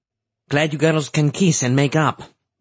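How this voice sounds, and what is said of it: Light Ladino accent. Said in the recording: “said in a light Ladino accent.”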